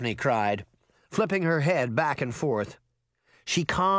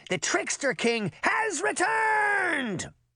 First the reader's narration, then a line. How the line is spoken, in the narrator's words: He shouted